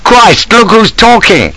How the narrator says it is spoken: I exclaimed

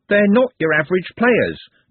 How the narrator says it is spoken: Trev blurted out

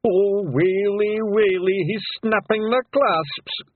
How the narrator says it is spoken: groaned Daft Woolley

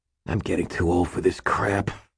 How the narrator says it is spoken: he growled

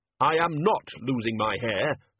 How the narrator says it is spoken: snapped the Dean

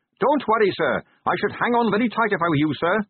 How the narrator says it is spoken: shouted Carrot above the rising wind

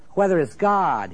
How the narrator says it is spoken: he cried

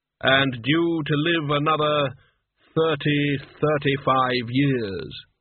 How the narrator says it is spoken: he said with a sigh

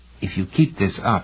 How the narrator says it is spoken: warned in a whisper

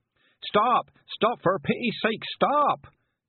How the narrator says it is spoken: yelled the carter as he sailed past

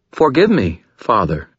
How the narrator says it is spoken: Lara said

